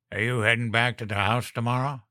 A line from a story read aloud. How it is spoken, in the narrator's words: he asked